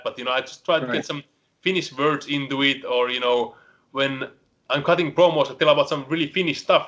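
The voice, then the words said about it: Finnish accent in English. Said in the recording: “I'm the only Finnish wrestler ... you can all hear my accent, so I can never hide that”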